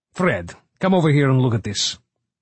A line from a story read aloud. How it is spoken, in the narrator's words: Zavich said sharply